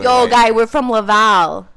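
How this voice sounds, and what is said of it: Put-on Laval accent. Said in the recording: “Is this a Laval accent?... Can you not do accents?”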